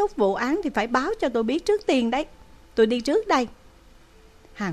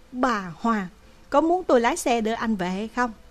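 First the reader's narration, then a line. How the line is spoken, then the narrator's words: Smiling. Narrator (Vietnamese): Phan Khả Hân mỉm cười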